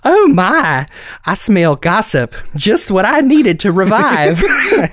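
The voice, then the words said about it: Cartoon character voice, exaggerated accent. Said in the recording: “your impersonation of Bunny ... it's me turning on my natural accent to 11”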